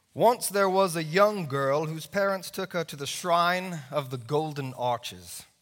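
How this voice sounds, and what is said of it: Put-on English accent. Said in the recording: “I will read this piece in an English accent because all great pieces of literature should be done in an English accent.”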